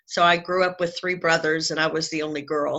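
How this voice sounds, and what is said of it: Southern American accent. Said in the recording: “I've been a Southern girl my whole life, if you can't tell from listening to my the accent of my voice”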